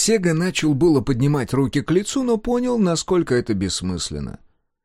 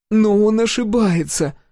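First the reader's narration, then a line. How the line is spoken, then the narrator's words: Pleading. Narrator (Russian): взмолилась Сол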